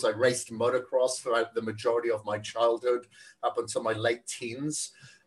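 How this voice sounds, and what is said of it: Welsh accent. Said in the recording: “You have such a charming accent. ... I think you're from Wales ... I do have an accent. So, Wales.”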